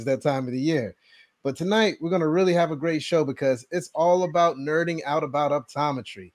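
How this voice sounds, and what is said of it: Hoarse, fading voice. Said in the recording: “I've been losing my voice.”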